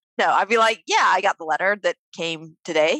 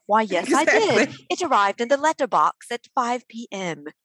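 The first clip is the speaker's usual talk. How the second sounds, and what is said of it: Fancy posh British accent. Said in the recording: “I would like respond with a very fancy British accent.”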